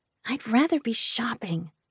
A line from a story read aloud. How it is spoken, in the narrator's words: Waylay whispered to me